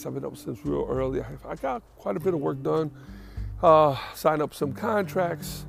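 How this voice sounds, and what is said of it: Tired-sounding voice. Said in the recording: “I'm a little tired today. You can hear it in my voice.”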